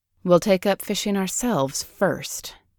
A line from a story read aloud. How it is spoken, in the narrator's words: muttered